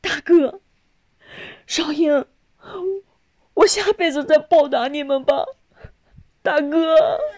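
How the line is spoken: Crying out in tears. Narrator (Chinese): 少丽……哭着喊道

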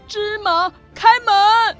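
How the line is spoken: Shouting password. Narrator (Chinese): 阿里巴巴对着山洞喊出密语

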